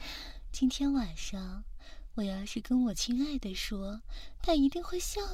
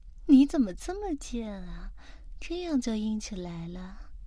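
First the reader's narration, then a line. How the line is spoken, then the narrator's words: Mocking. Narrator (Chinese): 他就会嘲笑着你说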